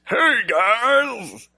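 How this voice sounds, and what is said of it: Comic superhero character voice. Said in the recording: “that was my like aluminum Silver Surfer impersonation ... That was a spot on aluminum Silver Surfer impression.”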